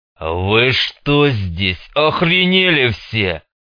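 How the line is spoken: Deep guttural growl. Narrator (Russian): Утробно прорычал он

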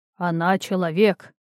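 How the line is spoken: Tired sigh, huge centaur. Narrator (Russian): устало вздохнул огромный кентавр

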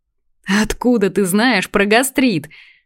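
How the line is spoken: Laughing loudly. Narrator (Russian): расхохоталась я

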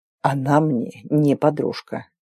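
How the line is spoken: Quiet hiss. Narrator (Russian): тихо прошипел конук

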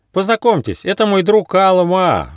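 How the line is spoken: Cheerful shout. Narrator (Russian): весело крикнул Бельчонок

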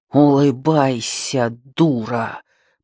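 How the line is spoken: Hiss through forced grin. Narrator (Russian): прошипел он, растягивая в благодарном оскале накрашенный рот

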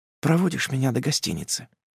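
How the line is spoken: Whisper. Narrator (Russian): прошептав

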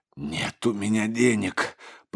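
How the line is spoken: Whispered. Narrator (Russian): прошептал отец Егорий

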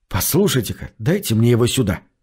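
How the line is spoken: Secretive whisper. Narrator (Russian): шепнул я, чтобы не услышал бармен

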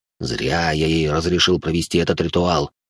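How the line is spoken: Muttered to himself, walking fast. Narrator (Russian): Буркнул он про себя, пока быстрым шагом двигался

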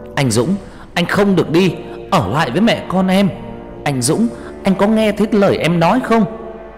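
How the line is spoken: Fierce screaming. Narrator (Vietnamese): có tiếng vợ anh hét lên dữ tợn

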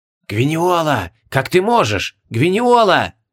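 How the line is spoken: Reproachful ghostly whispers. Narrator (Russian): Укоризненно зашептали призраки

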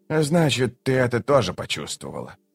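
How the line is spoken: Sigh after pause. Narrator (Russian): Он помолчал и вздохнул

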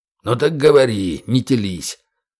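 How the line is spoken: Faint, creaky, exhausted voice. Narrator (Russian): Усталость снова взяла свое, и капитан проговорил уже едва слышным, скрипучим голосом

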